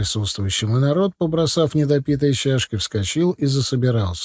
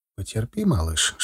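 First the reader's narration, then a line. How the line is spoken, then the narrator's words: Whisper. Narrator (Russian): шепнул я жене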